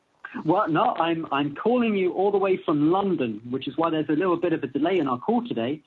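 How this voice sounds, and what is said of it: British accent. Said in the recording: “where is that accent from? ... that accent is from the bad guy in every single James Bond movie, every single Star Wars movie as well. It's from Great Britain. ... you just brought the accent with you”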